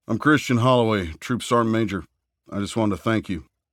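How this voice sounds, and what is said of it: Southern US accent. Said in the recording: “in an accent that betrayed a southern upbringing”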